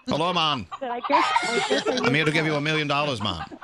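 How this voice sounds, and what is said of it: Put-on Jamaican accent. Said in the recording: “Let's say I'm a billionaire Jamaican chicken farmer. ... I like this accent.”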